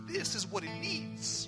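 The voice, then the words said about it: Thick Dominican accent. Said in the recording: “my dad has a real thick Dominican accent.”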